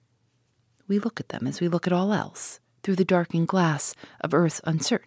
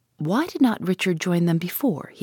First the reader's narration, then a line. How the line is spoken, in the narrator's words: he asks